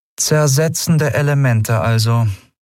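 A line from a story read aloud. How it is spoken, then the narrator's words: Flat toneless voice. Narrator (German): sagte sie schließlich mit tonloser Stimme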